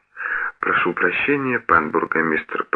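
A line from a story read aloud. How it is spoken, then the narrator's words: Sniffling whisper. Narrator (Russian): прошептал сопя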